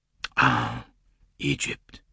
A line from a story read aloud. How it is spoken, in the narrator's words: breathed Monsieur Blondin